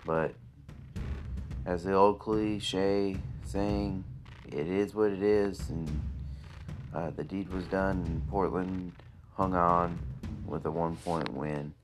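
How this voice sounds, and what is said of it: Sad, subdued voice. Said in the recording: “As you can hear in my voice, I'm kind of sad”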